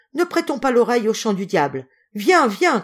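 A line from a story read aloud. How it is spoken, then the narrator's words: Shouted. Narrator (French): cria-t-elle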